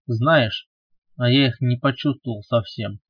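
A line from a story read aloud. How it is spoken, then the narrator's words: Very hurt complaining voice. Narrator (Russian): пожаловался Роман очень обиженным голосом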